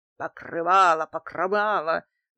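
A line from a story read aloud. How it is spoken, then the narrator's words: Yelling. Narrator (Russian): завопил Дмитрий Иванович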